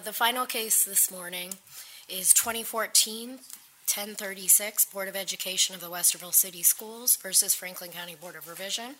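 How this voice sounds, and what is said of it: Hoarse voice. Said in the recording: “I'm battling a bit of laryngitis, so if at any point you have trouble understanding me”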